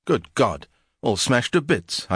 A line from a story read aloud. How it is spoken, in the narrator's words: cried at my first glance of the interior